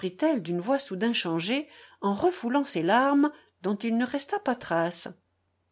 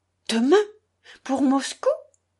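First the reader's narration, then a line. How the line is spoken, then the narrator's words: Tense exclamation. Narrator (French): s'exclama Catherine Ivanovna, le visage crispé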